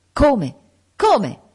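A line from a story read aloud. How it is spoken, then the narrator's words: Exclaimed. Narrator (Italian): esclamò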